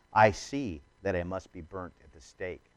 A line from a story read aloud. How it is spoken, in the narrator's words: calmly told his companions